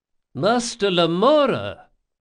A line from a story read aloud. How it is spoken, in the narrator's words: cried Ibelius